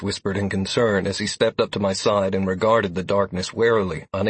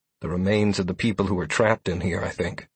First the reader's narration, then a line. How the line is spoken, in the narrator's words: I replied in a low voice